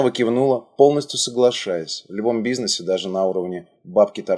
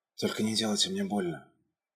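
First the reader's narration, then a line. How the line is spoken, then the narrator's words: Faint whisper while fainting. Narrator (Russian): успела шепнуть, проваливаясь в обморок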